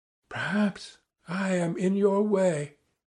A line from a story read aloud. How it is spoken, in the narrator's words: she began timidly, hardly audibly